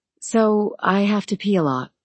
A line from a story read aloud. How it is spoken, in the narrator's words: she said, smiling nervously